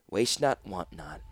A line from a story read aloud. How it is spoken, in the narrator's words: she whispered